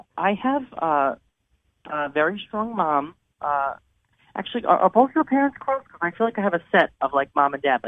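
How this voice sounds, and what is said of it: Strong New York accent. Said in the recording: “I hear a New York accent. ... Yeah, it's hard to miss.”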